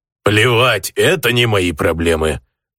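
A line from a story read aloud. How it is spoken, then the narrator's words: Grumbling, mostly calmed. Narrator (Russian): проворчал орк, но было видно, что он уже отошел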